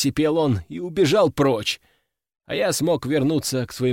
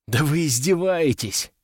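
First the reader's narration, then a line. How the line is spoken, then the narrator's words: Sighed. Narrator (Russian): вздохнул я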